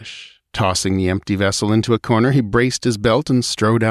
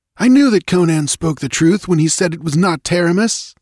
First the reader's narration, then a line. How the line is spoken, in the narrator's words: the speaker exclaimed